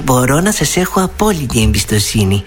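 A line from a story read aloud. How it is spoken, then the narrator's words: Said, syrupy sweet smile. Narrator (Greek): είπε η Δεσποινής Λιλή και πέταξε 1,5 κιλό σωρόπι στο χαμογελό της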